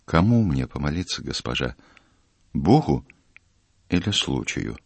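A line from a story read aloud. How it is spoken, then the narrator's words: Quiet question. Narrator (Russian): Матрос тихо ее спросил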